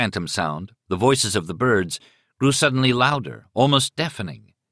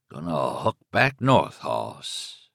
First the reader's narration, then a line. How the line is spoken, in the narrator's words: he heard himself say in a low, guttural voice, a voice which was not his own